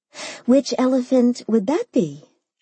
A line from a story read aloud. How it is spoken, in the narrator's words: I asked sweetly